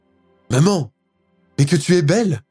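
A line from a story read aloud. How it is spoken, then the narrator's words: Exclaimed. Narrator (French): s'exclame Pauline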